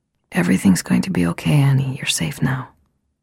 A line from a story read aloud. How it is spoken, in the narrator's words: Diane whispered